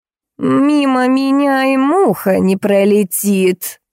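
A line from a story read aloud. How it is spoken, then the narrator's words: Offended droning old woman. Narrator (Russian): обиженно прогудела бабка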